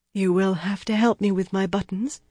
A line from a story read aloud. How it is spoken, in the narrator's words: she said unsteadily